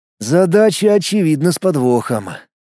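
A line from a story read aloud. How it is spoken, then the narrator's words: Sigh. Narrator (Russian): вздохнул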